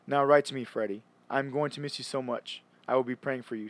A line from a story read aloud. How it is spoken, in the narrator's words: she said